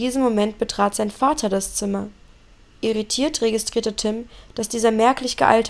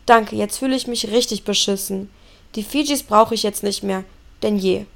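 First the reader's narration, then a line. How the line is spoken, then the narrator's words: Growled. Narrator (German): knurrte Tim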